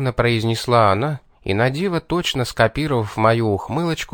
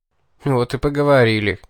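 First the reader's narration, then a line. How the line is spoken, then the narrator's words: Breathless snort. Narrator (Russian): хмыкнул я, переводя дух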